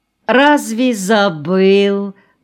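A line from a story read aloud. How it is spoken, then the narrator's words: Drawling. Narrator (Russian): протянул Кьяя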